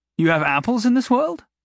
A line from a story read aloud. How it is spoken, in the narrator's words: Jason asked brightly